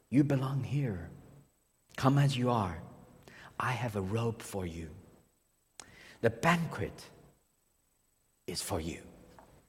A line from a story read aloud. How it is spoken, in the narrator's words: He says to you gently, in the quietness of your heart